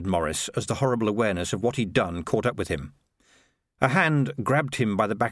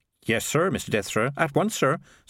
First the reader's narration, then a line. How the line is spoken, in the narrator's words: said Maurice quickly